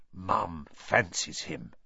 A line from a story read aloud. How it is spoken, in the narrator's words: said Fred in a very audible whisper